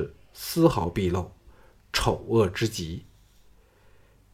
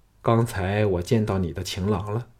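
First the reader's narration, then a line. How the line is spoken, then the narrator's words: Weary, flat voice. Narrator (Chinese): 项少龙疲态毕露的……淡淡的说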